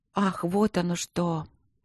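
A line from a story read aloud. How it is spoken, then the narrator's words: Muttered. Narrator (Russian): пробормотала Марина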